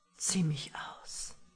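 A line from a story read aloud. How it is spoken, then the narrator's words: Sudden whisper in ear. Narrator (German): wisperte er plötzlich an ihrem Ohr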